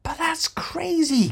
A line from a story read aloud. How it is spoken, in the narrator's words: cried Trillian